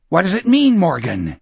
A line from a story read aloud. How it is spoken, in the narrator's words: Gardner asked hoarsely